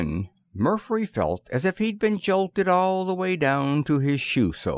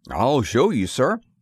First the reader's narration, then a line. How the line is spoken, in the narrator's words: said Bud Gregory anxiously